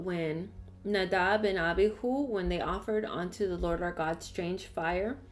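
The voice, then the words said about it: Strong accent. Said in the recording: “I don't know why I have such a strong accent today.”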